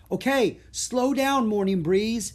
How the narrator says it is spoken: yelled Jack

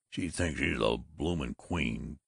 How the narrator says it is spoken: growled Babbitt

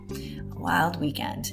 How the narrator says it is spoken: Hank whispered

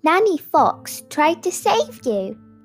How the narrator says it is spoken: chirped the chicks

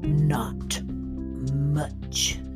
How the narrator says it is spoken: rumbled the shadowy figure

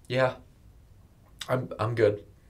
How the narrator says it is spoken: Abby stammered

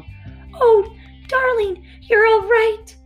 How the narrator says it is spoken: cried the mother hare

